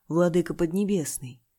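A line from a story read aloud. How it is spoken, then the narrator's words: Sigh. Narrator (Russian): вздохнул У Чэньтянь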